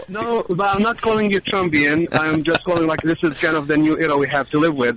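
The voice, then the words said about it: Middle Eastern accent. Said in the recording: “You obviously have a Middle Eastern accent.”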